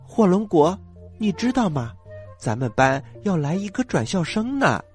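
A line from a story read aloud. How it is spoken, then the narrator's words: Quiet, barely contained. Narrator (Chinese): 苹果有点绷不住了，小声的跟火龙果说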